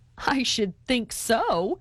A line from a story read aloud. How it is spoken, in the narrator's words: laughed Wesley